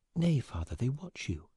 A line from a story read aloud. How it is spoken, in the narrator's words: whispered Mary